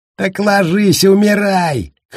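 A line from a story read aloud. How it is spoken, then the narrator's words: Shouting. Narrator (Russian): крикнул ему Баркович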